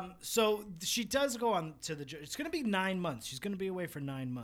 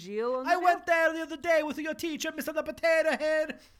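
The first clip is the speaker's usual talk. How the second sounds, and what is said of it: Cartoonish Italian pizza-chef accent. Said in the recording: “in an Italian accent ... In a fucking cartoon fucking pizza chef”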